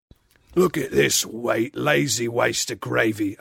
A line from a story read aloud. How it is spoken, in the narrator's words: a second voice growled